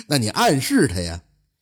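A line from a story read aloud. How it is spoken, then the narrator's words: Said with a laugh. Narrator (Chinese): 钱干一笑就说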